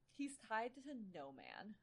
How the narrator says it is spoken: he muttered

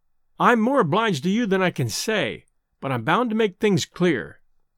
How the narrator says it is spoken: I said

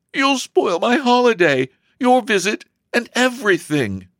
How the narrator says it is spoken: sobbed Elsie

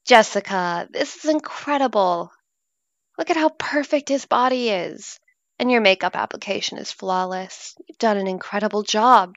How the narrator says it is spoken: Gina exclaimed in awe

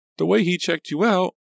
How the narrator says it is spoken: Pam cried shrilly

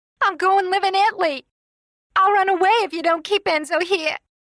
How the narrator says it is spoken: She screamed at her father

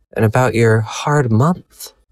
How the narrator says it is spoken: I sighed, feeling a pang in my heart

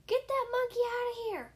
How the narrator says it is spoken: she yelled

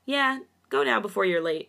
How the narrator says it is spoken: Changbin chuckled

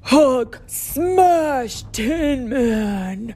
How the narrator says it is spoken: roared the Jade Giant

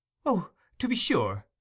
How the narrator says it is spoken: exclaimed Rose eagerly

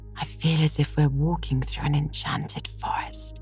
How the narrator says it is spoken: said Anne in a hushed tone

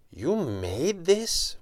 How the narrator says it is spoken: One said, his voice betraying his astonishment

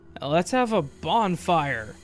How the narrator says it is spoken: slurred the first half of this sentence into one word

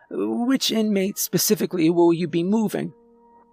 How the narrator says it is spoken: They asked timidly

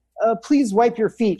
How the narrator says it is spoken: she says

